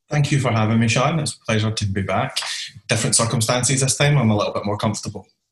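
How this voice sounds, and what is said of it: Scottish accent. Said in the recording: “you sound more Scottish ... you've just went from rough Scottish to posh Scottish”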